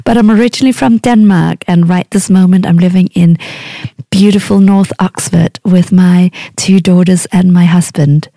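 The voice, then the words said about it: Mixed, hard-to-place accent. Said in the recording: “the accent ... what's this accent, I couldn't tell you. I've picked up quite a few things in the many places I've lived along the way.”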